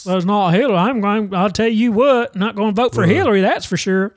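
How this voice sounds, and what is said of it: Put-on Southern US accent. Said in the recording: “Can we throw another accent other than Southern just so we're not saying Southerners are stupid?”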